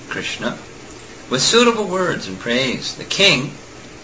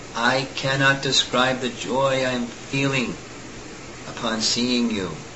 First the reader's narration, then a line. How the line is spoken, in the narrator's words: he said